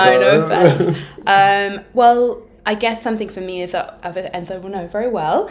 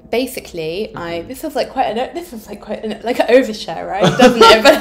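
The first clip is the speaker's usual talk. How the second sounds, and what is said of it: Put-on British accent. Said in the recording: “why my voice is going so British all of a sudden... I'm like a British man that can't express his feelings”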